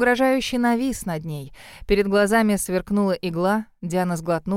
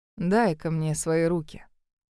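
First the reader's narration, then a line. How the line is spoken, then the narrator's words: Commanded in a gentle voice. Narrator (Russian): приказал ласковым голосом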